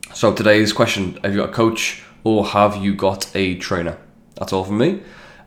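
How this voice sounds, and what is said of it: Congested voice from a cold. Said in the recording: “I have got a cold. It's fun to sound like I've got a cold.”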